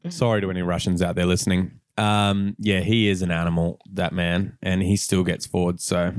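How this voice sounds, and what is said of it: Usual voice. Nothing is said of it.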